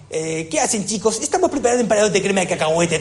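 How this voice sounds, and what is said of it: Playful put-on foreign-sounding accent. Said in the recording (Spanish): “un acento que molaba bastante ... Esos acentos maravillosos.”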